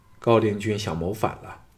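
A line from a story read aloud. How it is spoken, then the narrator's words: Calm, indifferent. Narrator (Chinese): 项少龙淡淡的说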